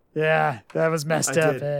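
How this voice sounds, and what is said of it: Sleepy Stu Hart impression. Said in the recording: “I sound like Norm MacDonald imitating me ... you kind of sound like a sleepy KBW ... It's so spot on. It's like I'm talking to Stu.”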